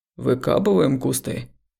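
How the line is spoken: Deep, slightly hoarse voice. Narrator (Russian): пробасил Коля своим низким, чуть хрипловатым голосом, нарушая тишину

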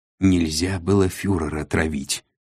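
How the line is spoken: Very quiet. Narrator (Russian): очень тихо произнес конец

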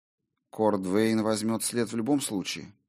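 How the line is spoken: Cold. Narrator (Russian): холодно проговорила она

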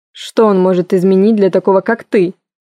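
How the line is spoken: Angry snort. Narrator (Russian): фыркнул Коул, вдруг выйдя из себя

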